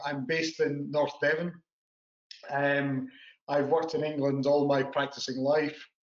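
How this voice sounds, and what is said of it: Speaks with a noticeable accent. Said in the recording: “despite the accent”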